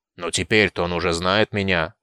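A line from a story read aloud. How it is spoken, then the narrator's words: Grumbled. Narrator (Russian): пробурчал Айтар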